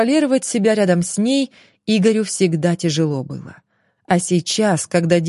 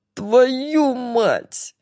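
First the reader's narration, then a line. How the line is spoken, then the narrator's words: Nearly howling. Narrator (Russian): Игорь почти взвыл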